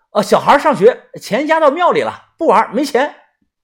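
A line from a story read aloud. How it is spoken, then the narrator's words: Shouted. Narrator (Chinese): 我喊了这声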